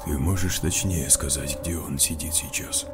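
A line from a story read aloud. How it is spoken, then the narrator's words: Quiet breathless question. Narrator (Russian): тихо спросил капитан, почти не дыша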